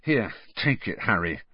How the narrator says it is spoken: Ron added in an undertone

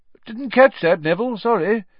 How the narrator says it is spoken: said Professor Lupin cheerfully

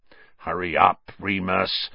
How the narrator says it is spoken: snarled

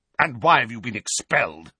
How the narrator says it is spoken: Uncle Vernon spat out

